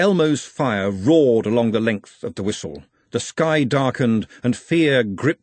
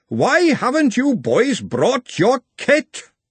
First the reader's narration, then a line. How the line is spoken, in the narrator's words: he roared